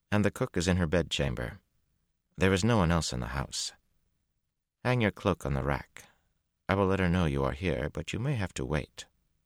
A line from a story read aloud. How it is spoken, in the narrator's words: she said calmly